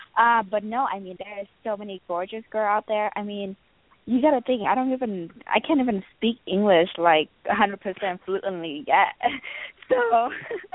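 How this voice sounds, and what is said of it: Non-native English accent. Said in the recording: “my accents and everything. And at first I hated my accent,”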